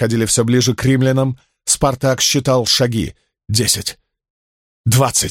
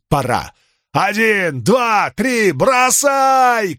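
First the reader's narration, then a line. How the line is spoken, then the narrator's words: Shouted. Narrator (Russian): крикнул он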